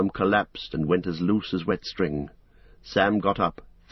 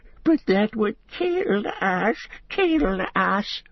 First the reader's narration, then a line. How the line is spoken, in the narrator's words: whimpered Gollum